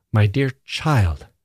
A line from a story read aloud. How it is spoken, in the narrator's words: she said sharply